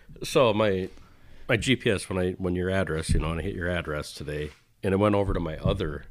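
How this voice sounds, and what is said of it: Usual voice. Nothing is said of it.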